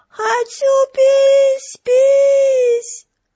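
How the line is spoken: Yelling. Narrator (Russian): Вентворд завопил

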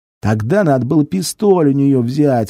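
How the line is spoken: Whining, muffled rustling breath. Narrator (Russian): опять заныл лопух, и его пакет громко зашуршал от дыхания

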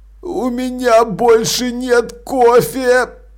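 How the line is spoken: Moaning. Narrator (Russian): простонал Маладикт

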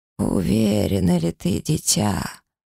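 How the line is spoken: Hoarse. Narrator (Russian): прохрипела она

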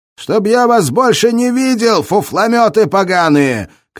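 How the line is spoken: Furious shouting. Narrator (Russian): кричал он вслед бегущим, чтобы выместить ярость

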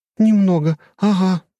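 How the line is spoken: Breathed out. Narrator (Russian): выдохнула Анастасия

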